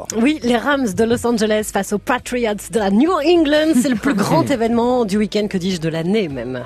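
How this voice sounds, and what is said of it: French with put-on American accent. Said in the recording (French): “vous allez faire toute la chronique avec l'accent américain”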